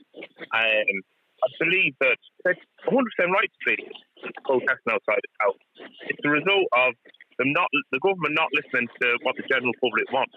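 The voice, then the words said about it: Non-native foreign accent. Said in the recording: “You can tell by my accent, I'm actually an immigrant.”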